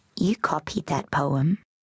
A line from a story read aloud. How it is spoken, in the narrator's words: Jacinta whispered